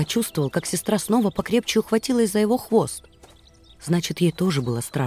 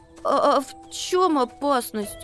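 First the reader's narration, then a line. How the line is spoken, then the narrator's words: Stammering question. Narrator (Russian): спросил, запинаясь, Макси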